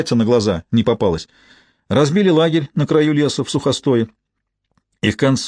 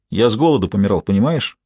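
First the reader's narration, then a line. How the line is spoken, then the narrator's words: Gruff mutter. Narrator (Russian): буркнул в ответ Уоллес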